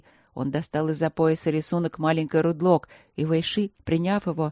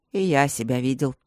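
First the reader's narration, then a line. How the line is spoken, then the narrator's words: Wry snort. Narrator (Russian): хмыкнул Четыре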